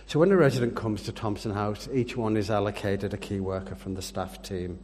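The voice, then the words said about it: English Yorkshire accent. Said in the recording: “I have an English accent. I'd like to point out I'm the best kind of Englishman. I'm a Yorkshireman.”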